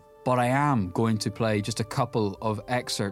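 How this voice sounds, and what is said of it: Usual voice. Nothing is said of it.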